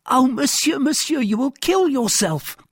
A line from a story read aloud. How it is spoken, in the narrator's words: cried Planchet